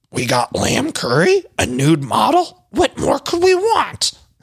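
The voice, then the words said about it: Impression of Luann de Lesseps. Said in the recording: “let me do my Luann voice.”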